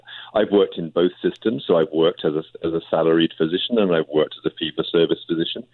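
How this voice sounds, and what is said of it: Speaks with an unusual accent. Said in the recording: “you can tell from my funny accent”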